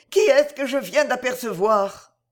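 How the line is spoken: Exclaiming. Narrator (French): s'écria-t-elle

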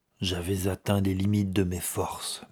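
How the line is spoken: Murmured. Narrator (French): murmura-t-il

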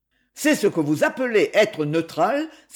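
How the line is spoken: Stout gentleman exclaiming. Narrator (French): s'exclama un gros monsieur

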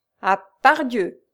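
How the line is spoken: Rose exclaiming. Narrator (French): s'écria la rose

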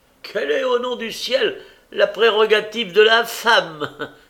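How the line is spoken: Widow exclaiming. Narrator (French): s'écria la veuve Cornet

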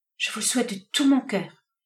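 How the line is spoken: Melancholy murmur. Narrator (French): murmura la jeune fille avec une certaine mélancolie

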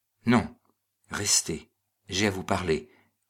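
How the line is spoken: Low muffled voice. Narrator (French): reprit Hannibal Pantalacci d'une voix sourde

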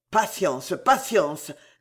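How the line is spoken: Loud scolding growl. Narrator (French): gronda l'abbé si haut

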